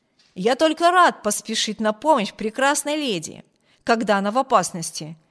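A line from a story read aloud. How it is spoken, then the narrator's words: Exclaiming. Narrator (Russian): воскликнул полковник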